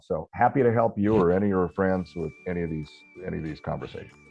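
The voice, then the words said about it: Resonant radio-style voice. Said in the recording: “I've got a radio voice”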